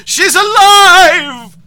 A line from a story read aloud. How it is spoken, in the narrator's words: He yells